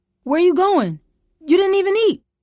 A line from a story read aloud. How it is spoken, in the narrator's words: Troy called out